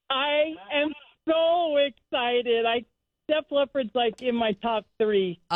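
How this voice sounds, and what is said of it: Very excited voice. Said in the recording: “You sound very excited.”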